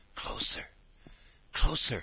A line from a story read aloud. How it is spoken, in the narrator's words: whispered